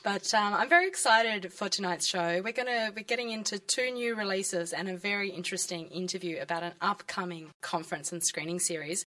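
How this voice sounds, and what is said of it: Raspy, textured sick voice. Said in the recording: “I've been a little bit sick, so we've got a very textured and raspy voice for tonight.”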